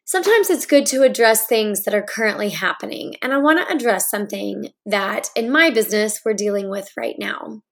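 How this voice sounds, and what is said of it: Hoarse, congested voice. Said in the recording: “I'm getting over a summer cold, and so my voice isn't quite as it is normally”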